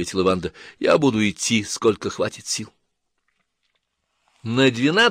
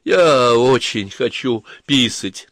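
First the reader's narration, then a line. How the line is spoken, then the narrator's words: Struggling words, then loud crying. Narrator (Russian): наконец выговорила она и громко заплакала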